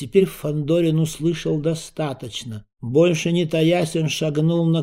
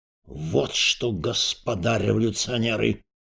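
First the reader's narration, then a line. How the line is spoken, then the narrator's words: Menacing announcement. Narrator (Russian): грозно объявил Распетрович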